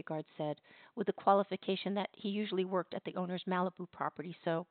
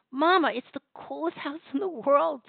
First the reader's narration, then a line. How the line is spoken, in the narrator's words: Tava squealed